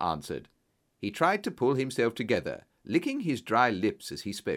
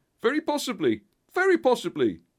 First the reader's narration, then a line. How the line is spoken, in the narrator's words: cried Pinner with a ghastly smile